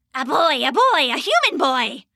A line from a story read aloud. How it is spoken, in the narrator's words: one screeched